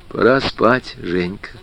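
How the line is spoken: Very quiet mother. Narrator (Russian): тихо-тихо сказала мама

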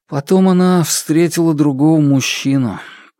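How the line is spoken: Sad. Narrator (Russian): печально произнес Хан

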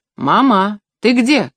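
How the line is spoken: Shouting. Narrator (Russian): крикнул

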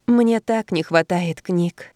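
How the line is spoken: Sighing. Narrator (Russian): вздохнула Анна

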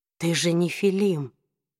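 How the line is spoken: Quiet. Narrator (Russian): тихо произнес он

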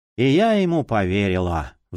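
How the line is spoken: Sighing. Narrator (Russian): вздохнула кукла

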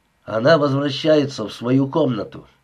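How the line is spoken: Plain. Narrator (Russian): сказал Рэй

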